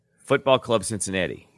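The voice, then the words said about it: Put-on Polish accent. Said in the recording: “I can do a Polish accent.”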